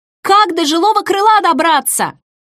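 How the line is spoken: Shouted. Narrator (Russian): крикнула я

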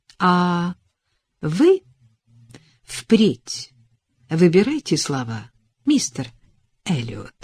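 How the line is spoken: Calm. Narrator (Russian): спокойно произнесла она

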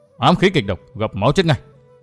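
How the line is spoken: Indignant, resentful voice. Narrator (Vietnamese): Vương Vinh với giọng phẫn hận nói

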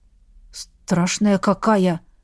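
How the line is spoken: Forced out, strained. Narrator (Russian): выдавил его приятель

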